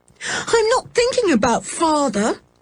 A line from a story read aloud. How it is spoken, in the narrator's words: cried George